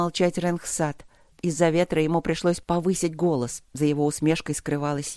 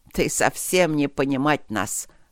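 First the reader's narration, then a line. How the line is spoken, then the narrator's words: Speaking through laughter. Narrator (Russian): проговорил он сквозь смех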